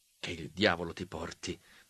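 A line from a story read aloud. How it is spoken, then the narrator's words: Fervent murmur. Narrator (Italian): mormorai io fervidamente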